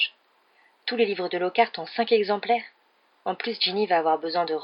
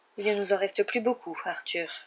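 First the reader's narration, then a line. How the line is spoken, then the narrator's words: Sighing. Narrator (French): soupira-t-elle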